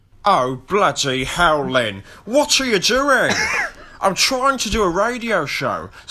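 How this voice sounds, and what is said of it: Good Alan Partridge character impression. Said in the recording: “that's quite a good it's quite a good Partridge, to be fair... it's not a bad Partridge at all”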